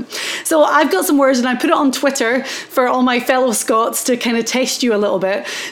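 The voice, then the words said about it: Highland Scottish accent. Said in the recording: “My accent is from the north of Scotland in the Highlands”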